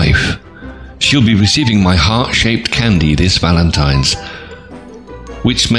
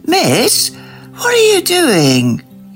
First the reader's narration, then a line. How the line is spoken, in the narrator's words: Jason wails